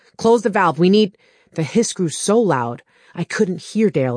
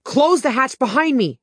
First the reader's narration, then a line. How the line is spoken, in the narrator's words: I yelled